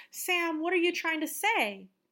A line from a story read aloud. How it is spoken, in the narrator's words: Excited about this possibility that this could be her friend, excitedly asks